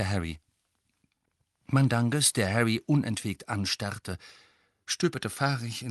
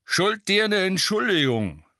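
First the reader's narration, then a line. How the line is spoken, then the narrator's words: Grunting. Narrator (German): grunzte eine Stimme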